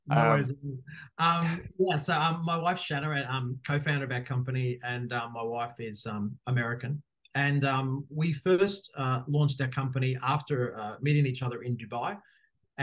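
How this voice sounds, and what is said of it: Australian accent. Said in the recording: “As people will know quickly from my accent, I am Australian”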